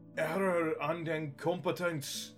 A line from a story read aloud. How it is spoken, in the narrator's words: he shouted